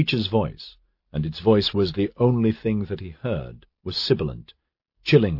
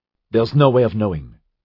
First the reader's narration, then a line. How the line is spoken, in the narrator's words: Calvin said